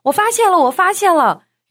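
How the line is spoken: Shouting. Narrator (Chinese): 大喊

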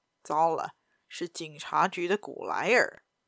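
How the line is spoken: Low voice. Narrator (Chinese): 他低声对马尔科说

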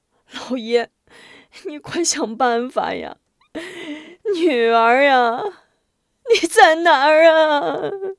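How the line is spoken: Crying, wailing. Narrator (Chinese): 夫人哭闹

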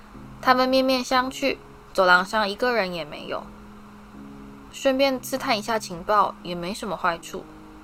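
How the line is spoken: Murmured. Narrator (Chinese): 荣恩喃喃地说

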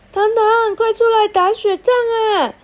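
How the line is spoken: Children shouting. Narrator (Chinese): 操场上的小朋友大叫着

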